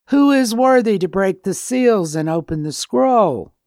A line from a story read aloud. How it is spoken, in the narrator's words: a powerful angel who called in a loud voice